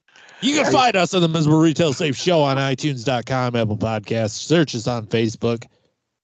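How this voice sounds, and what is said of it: Exaggerated radio announcer voice. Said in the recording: “My stupid radio voice.”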